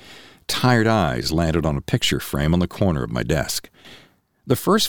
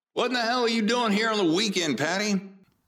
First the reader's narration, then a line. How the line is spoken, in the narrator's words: she shouted